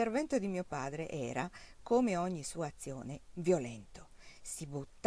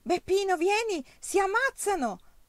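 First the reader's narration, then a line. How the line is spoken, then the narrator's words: Shouting. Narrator (Italian): gridava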